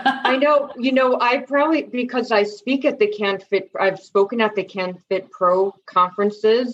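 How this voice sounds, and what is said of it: Slight New York accent. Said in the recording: “I have a bit of a New York accent.”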